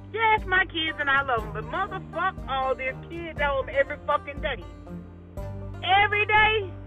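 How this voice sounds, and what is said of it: Tense, exasperated ranting voice. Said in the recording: “Do you hear the tension in my motherfucking voice”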